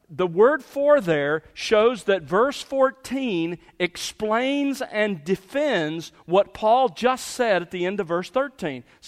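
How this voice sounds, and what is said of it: American Southern accent. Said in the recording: “my southern accent”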